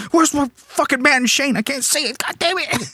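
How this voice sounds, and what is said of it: Angry shouting like an old man. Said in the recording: “like an old man on my phone ... I'm yelling”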